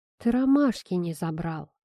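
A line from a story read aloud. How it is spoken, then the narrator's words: Sighing. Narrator (Russian): вздохнув, произносит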